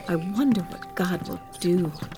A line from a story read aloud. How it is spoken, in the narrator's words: they whispered to each other